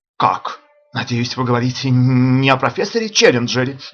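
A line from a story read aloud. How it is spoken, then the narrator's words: Exclaiming. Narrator (Russian): воскликнул я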